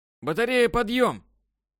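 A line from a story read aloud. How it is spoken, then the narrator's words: Shouting. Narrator (Russian): Последний раз прокричал дневальный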